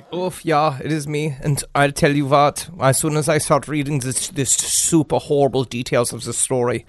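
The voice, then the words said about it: Put-on German accent. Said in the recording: “why the German accent”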